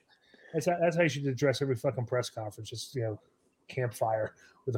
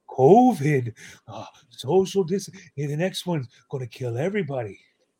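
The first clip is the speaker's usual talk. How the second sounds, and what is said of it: Imitates another person's voice. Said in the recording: “my impression of Dr. Fauci”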